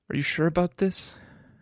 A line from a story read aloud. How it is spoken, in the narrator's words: She asked softly